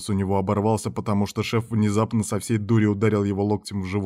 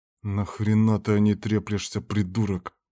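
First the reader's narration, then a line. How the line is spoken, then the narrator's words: Hissed through teeth. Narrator (Russian): прошипел он сквозь зубы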